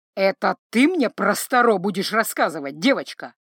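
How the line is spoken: Scoffing snort. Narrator (Russian): хмыкнул шаман

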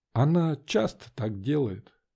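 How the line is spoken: Quiet. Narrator (Russian): тихо сказала Вера

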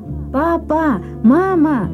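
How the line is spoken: Joyful cry. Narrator (Russian): радостно выкрикнула она

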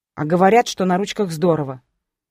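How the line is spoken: Ironic snort. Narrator (Russian): фыркнула с иронией

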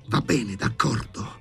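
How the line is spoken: Hissing. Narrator (Italian): sibilò Bormental

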